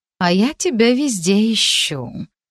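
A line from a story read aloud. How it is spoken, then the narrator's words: Languid drawl. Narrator (Russian): томно протянула она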